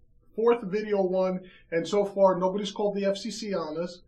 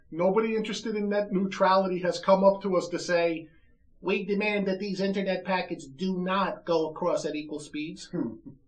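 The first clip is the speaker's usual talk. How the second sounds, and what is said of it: Imitated Southern US accent. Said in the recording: “my impersonation of anyone from the South”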